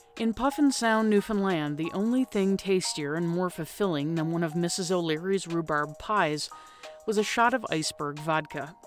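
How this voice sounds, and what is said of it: Raspy, breathy voice. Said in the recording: “in my own voice, as raspy or breathy as it may be at this point”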